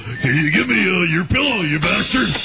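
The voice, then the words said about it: Dumb guy character voice. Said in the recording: “doing that dumb guy voice ... that dumb guy voice you do”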